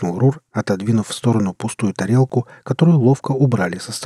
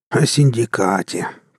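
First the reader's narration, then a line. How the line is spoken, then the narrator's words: Grumbled. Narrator (Russian): проворчал Рур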